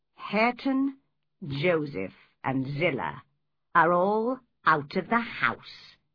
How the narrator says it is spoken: said calmly

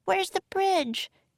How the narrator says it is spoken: cried Annie

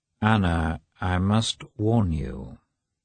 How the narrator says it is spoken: said he

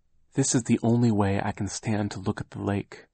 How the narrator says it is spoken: Aunt Josephine said in a quiet voice

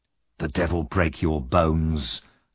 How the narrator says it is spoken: the man said through his teeth

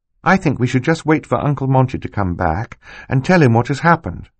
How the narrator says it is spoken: Violet said

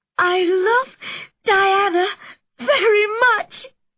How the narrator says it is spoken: sobbed Anne

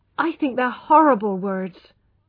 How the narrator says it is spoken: cried Tess

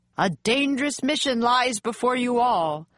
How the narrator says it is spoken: the man shouted above the wind

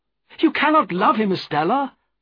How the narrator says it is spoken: cried

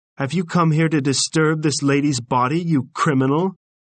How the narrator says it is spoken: said Paris angrily

